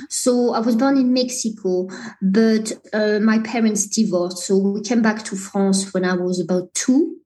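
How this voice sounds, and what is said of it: French accent. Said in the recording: “I can hear an accent there. ... as you can hear from my accent, I'm definitely French.”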